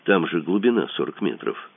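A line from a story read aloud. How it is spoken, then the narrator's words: Gentle, patient, as to child. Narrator (Russian): сказал Мазур ласково и терпеливо, словно дитяти несмышленышу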